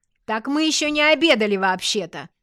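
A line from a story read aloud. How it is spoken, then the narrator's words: Shout. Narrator (Russian): крикнула я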